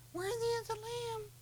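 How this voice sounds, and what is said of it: Weak, timid wimpy voice. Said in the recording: “a bunch of wimps around the kingdom of God going ... did you like that impersonation?”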